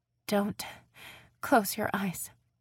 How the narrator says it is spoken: Ryan said shakily

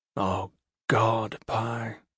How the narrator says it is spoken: Gentle murmured to himself

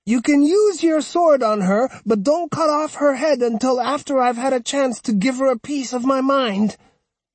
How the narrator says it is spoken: cried

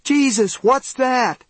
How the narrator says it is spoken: Mary screamed

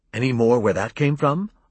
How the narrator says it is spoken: I asked eagerly

